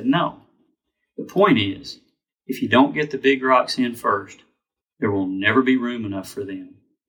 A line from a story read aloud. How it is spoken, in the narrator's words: the speaker gently said